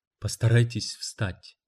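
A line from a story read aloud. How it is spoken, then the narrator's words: Soft. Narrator (Russian): мягко сказала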